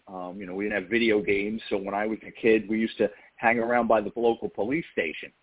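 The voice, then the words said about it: Slight New York accent. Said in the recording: “a little bit of that New York accent coming through in your voice... a little New York accent”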